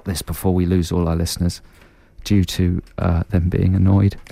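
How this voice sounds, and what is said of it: Usual voice. Nothing is said of it.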